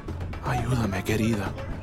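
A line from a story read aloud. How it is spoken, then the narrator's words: Murmured. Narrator (Spanish): murmuró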